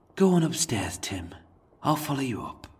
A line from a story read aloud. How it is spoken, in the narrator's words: he sighed and softly uttered